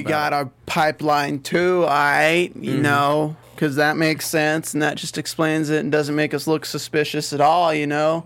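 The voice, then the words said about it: Put-on impression of a TV character. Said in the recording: “What is this voice? Is this your Jax impression? ... This is my Jax.”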